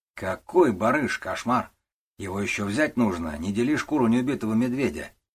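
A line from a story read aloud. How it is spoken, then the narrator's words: Calm retort. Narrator (Russian): спокойно парировал Петр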